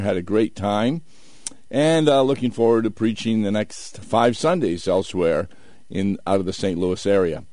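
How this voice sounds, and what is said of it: Low, nearly lost voice. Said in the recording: “my voice is a little low. Almost lost it yesterday when I was preaching”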